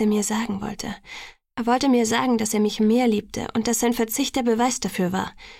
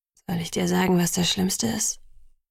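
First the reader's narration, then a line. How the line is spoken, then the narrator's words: Hesitant question. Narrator (German): fragte zögernd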